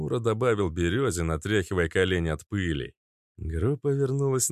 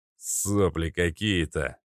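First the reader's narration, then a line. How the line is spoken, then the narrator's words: Grumbling. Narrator (Russian): проворчал Остроушка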